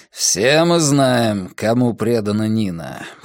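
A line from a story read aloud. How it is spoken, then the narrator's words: Wry snort. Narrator (Russian): хмыкнул Брекер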